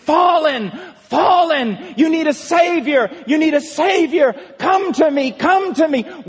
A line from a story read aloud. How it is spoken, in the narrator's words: screaming out to you